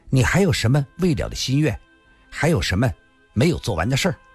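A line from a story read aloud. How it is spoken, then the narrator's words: Seemingly calm. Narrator (Chinese): 他的声音仿佛很平静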